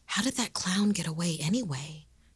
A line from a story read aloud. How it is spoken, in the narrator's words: They whispered to one another